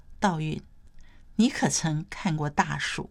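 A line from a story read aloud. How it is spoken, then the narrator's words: Soft, hesitant. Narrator (Chinese): 他才轻声说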